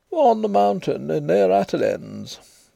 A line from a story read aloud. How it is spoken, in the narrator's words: Devereux answered gloomily